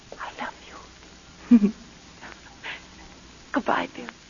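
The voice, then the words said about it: Soft whispered voice. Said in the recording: “I want to whisper something.”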